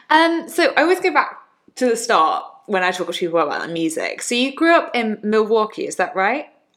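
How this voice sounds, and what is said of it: English accent. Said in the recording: “butchering that completely in my English accent.”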